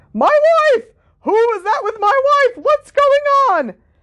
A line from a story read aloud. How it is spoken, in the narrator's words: the real Reg Cattermole screamed